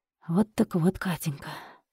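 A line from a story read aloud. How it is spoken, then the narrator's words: Bitter whisper. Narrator (Russian): прошептал Сергей с горечью и немного помедлил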